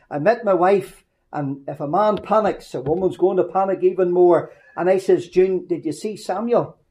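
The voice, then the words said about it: Northern Irish accent. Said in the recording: “in my sweet Northern Ireland accent.”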